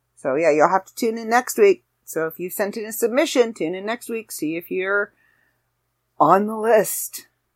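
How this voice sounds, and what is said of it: Slightly raspy voice. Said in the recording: “my voice is starting to get a little raspy”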